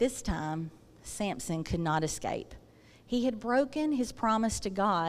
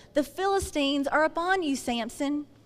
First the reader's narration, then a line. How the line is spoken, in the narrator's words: Delilah shouted